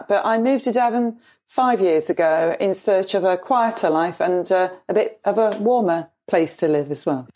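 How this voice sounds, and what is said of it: English Midlands or Sheffield accent. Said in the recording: “you can probably tell by my accent ... I was born in Nottingham, but lived most of my life in Sheffield.”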